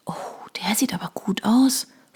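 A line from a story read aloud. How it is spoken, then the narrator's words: Whisper. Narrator (German): flüsterte Eileen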